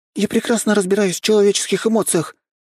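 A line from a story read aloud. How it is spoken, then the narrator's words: Impatient angry exclamation. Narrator (Russian): немного потеряв терпение и даже как-то зло воскликнула Нюша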